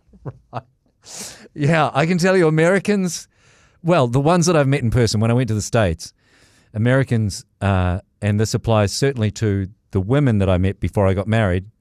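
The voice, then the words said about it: New Zealand accent. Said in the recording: “Women over there love the Kiwi accent ... oh my God, your accent ... where I come from, this is just normal.”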